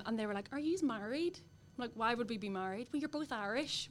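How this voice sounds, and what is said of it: Irish accent. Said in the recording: “the accent ... I get the accent.”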